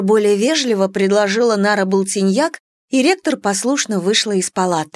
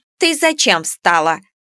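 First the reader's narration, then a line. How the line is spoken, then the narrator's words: Indignant question. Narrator (Russian): возмущенно спросила Нара Болтиньяк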